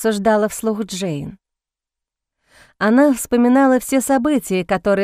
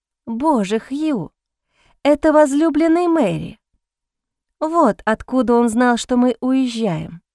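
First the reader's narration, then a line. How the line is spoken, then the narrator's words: Exclamation. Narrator (Russian): воскликнула девушка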